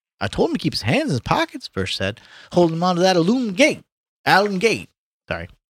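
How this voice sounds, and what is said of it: Reads aloud in a put-on accent. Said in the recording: “That's racist. ... Your accent.”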